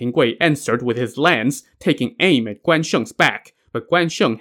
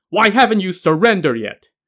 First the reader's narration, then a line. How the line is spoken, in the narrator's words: Guan Sheng suddenly turned around and shouted